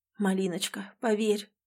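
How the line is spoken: Hoarse whisper. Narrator (Russian): хрипло шепчет Эмиль

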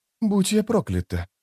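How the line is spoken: Muttered. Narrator (Russian): пробормотала Апсалар

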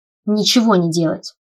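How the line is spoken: Snapping retort. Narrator (Russian): огрызнулась

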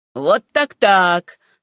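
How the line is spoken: Laughing exclamation. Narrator (Russian): смеясь, воскликнул мистер Верхэм

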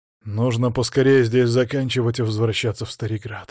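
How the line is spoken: Sighed. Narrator (Russian): вздохнул

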